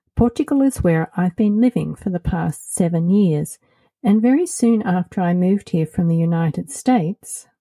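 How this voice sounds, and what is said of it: Australian accent. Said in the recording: “As you might have noticed by my accent, I'm originally from Australia.”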